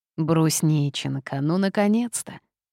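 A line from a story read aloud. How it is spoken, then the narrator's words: Tired, smiling grandmother. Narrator (Russian): устало произнесла бабушка, улыбаясь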